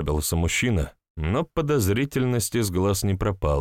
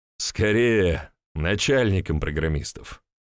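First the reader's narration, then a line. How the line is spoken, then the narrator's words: Laughing. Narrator (Russian): хохотнул я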